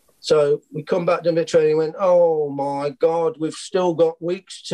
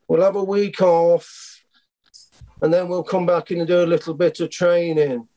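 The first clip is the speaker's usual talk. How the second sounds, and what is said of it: Imitates the football manager's voice. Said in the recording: “So the gaffer I'll do the voice because you quite like it.”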